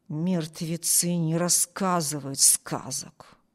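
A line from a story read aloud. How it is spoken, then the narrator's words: Chilling mutter. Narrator (Russian): пробормотал Харпер таким тоном, что у Эми кровь застыла в жилах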